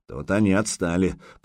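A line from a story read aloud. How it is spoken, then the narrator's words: Grumbling. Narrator (Russian): проворчал Возгарь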